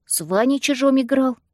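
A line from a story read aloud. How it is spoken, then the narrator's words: Babbling. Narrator (Russian): пролепетал Яшка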